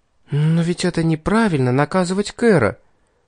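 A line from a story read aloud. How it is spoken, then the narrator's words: Timid, hesitant. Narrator (Russian): робко заикнулась Златовласка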